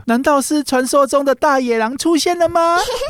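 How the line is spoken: Excited cry. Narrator (Chinese): 小红帽兴奋地叫着

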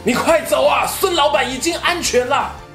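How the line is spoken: Wounded man shouting. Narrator (Chinese): 身后一名老部下呢，用枪撑住身体，对着他大喊

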